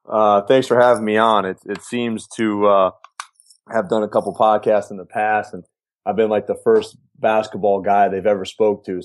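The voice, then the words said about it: American accent. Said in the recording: “just to hear an American accent is pretty refreshing”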